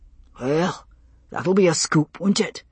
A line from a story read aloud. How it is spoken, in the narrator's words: Roger muttered